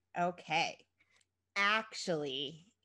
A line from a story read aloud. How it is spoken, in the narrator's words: began Chrissy slowly